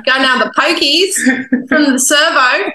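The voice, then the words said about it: Put-on Australian accent. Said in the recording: “Oh, good accent.”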